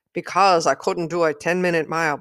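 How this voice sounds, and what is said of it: Poorly imitated Irish accent. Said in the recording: “I'm doing a terrible impression. ... he was from Ireland.”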